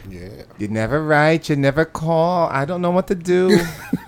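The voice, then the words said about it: Put-on Jewish grandmother accent. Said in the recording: “What accent was that? Was that grandma? Was that like Asian lady? ... No, that's like the little Jewish grandma. ... That was the little Jewish Asian Polish.”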